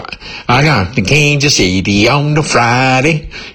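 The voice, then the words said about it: Overdone Southern accent. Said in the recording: “a Southern accent ... It was so overdone”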